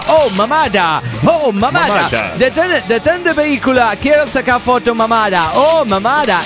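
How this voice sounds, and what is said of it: Mock American accent in Spanish. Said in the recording (Spanish): “platicaba pura mamada con su acento gringo”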